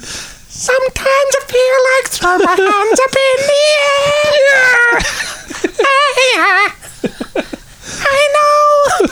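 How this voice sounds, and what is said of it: Sung imitation of a singer's voice, poor. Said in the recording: “do a Perry Farrell voice ... It was terrible. It was no good.”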